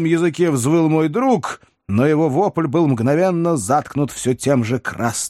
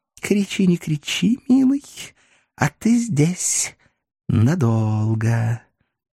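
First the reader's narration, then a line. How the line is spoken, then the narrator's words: Mysterious cooing woman. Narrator (Russian): Загадочно проворковала француженка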